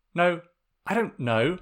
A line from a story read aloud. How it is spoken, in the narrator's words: Sokka sputtered